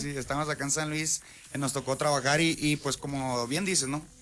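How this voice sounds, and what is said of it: Sinaloan Mexican Spanish accent. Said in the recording (Spanish): “yo te escucho otro acento... Muy así, muy a lo mochiteco.”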